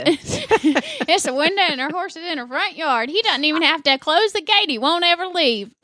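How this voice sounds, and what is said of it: Southern US accent. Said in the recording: “I do love your southern accent. It's really nice.”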